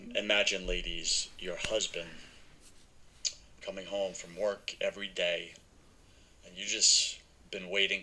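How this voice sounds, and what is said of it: New York accent. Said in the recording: “this guy with a weird New York accent talking”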